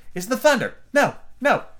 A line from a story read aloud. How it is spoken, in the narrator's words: she hastily corrected herself